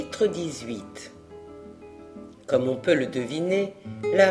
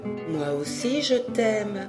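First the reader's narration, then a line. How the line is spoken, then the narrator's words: Plain. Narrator (French): répondit la fée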